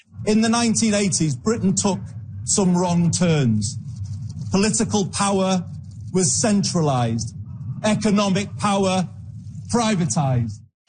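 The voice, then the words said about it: Manchester Northern English accent. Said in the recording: “Burnham is from Manchester, Northern England, and he sounds like it.”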